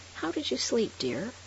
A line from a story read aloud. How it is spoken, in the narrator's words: she then added sarcastically